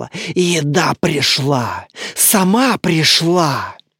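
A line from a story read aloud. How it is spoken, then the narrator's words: Hissing. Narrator (Russian): Лысая зашипела и сказала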